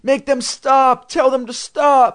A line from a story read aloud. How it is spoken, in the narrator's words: cried